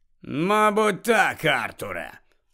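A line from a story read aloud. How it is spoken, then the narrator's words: Threatening agreement. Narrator (Ukrainian): погодився погрозливим тоном Муді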